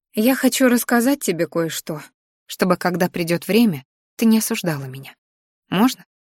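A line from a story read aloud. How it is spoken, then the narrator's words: Sudden quiet. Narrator (Russian): вдруг тихо сказала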